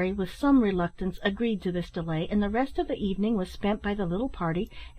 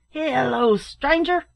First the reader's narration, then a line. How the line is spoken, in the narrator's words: shouted a voice from within